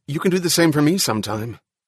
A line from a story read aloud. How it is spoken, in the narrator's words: In a rapid voice, Stone said